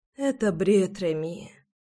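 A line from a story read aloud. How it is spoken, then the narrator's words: Sleepy whisper. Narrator (Russian): сонно прошептала Руслана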